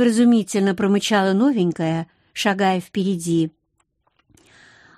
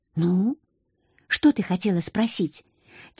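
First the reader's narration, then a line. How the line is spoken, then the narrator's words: Quiet. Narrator (Russian): тихо произнесла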